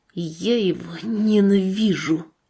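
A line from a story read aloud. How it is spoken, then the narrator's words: Whispered after long silence. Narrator (Russian): Саша долго молчал, а потом шепнул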